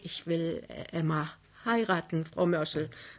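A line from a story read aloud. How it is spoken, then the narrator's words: Anxious. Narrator (German): sagte ängstlich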